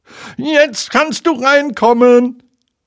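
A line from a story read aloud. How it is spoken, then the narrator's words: Calling out. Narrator (German): rief er Pooh zu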